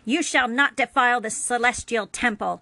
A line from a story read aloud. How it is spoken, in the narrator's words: The usually calm and friendly voice of the computer spat venom